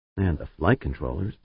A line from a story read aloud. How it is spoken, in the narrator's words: Pancho muttered